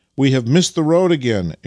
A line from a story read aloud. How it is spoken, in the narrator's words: exclaimed Vasily